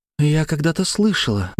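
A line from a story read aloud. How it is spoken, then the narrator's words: Whisper after long pause. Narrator (Russian): начала она после долгой паузы, почему-то шепотом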